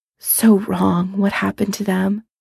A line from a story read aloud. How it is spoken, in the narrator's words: she whispers